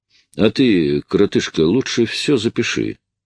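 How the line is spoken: Plain. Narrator (Russian): сказал он Огдену

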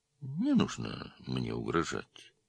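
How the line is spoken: Calm. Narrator (Russian): спокойно сказал подполковник

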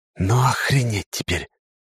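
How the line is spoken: Whispered. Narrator (Russian): прошептал

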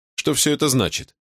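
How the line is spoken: Displeased tone hiding nerves. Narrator (Russian): спросил я, скрывая волнение за недовольным тоном

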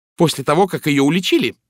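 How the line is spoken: Sharp retort. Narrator (Russian): резко парировала Джин

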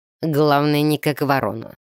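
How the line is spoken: Dwarf's snort. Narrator (Russian): хмыкнул Грег, самый настоящий гном

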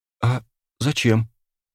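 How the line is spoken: Timid question. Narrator (Russian): Робко поинтересовалась Иванова

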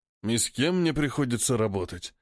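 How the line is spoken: Sigh. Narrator (Russian): вздохнул Мак

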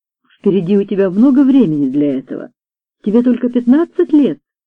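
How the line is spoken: Plain. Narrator (Russian): сказала мисс Джонсон

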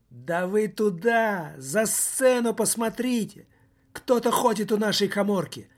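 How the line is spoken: Shout. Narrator (Russian): выкрикнул

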